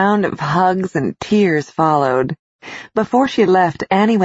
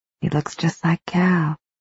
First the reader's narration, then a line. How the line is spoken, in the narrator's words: she whispered